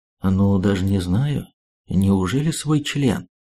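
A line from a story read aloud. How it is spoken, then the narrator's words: Calm reply. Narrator (Russian): Шпион не менее спокойно ответил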